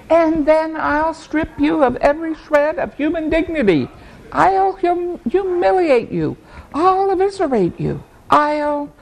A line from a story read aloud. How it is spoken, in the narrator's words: Stitcher shouting